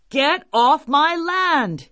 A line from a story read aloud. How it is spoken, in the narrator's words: he shouted